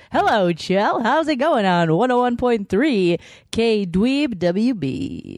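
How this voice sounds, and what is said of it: Exaggerated radio DJ voice. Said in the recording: “Radio ... doing my radio voice?”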